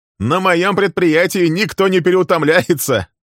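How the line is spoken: Laughing. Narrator (Russian): Рассмеялся Фрэнк Суттон

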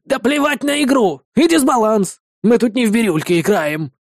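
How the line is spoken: Sudden bark. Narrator (Russian): вдруг рявкнул ученый

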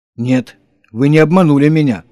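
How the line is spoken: Satisfied female voice. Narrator (Russian): удовлетворенно произнесла она

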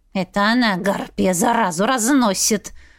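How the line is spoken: Hissing cat. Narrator (Russian): Зашипел кот

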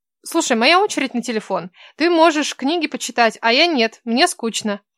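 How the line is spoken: Demanding young woman. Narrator (Russian): требовательным тоном произнесла девушка

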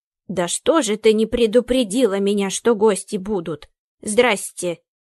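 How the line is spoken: Grumbling. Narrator (Russian): С порога проворчала Акулина

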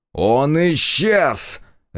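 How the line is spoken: Bark. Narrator (Russian): рявкнул дознаватель

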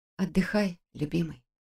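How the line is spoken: Tender whisper. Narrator (Russian): прошептала я

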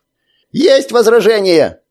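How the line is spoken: Shouting. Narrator (Russian): закричал Носок

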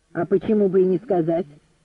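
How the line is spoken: Sharp question. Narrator (Russian): резко спросил

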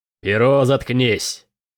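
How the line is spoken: Growled. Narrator (Russian): Прорычал Келин

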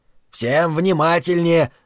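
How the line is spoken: Barking. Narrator (Russian): рявкнул Зарая

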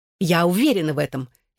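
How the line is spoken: Exclaimed furiously. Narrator (Russian): яростно воскликнула она

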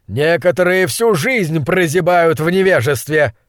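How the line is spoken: Screamed. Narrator (Russian): Завопил он в испуганное лицо своего бывшего наставника

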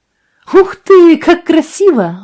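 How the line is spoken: Exclamation. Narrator (Russian): воскликнула Бетти

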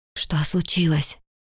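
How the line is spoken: Barely audible whisper. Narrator (Russian): едва слышно прошептал

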